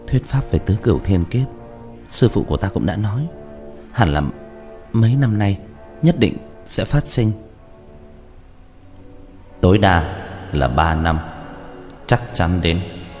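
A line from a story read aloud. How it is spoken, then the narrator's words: Whisper. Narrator (Vietnamese): Như Lễ Ngọc thì thào nói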